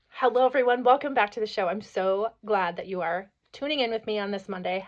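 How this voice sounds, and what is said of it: Hoarse, froggy voice. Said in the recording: “I got this like kind of a hoarse, froggy throat... my voice is a little hoarse”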